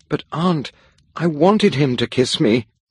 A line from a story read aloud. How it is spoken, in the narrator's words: cried